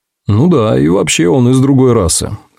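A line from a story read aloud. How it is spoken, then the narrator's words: Tired joking. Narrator (Russian): устало пошутил Африэль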